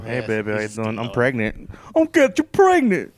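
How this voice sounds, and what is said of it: Imitates another person's voice. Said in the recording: “That's the worst imitation of Tracy Morgan ever.”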